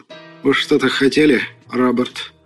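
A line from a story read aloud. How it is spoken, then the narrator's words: Tired. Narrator (Russian): Устало произнес Пластман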